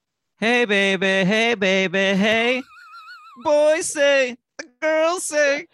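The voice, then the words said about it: Poor sung imitation of another person's voice. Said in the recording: “Gwen Stefani impression ... This is not a good impression. I barely recognize the song.”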